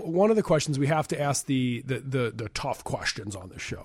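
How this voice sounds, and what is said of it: Imitates another person's voice. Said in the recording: “my Walter Cronkite impersonation. It didn't go very well”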